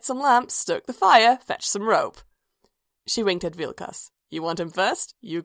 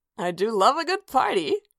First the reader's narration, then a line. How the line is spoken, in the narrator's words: Ayala laughed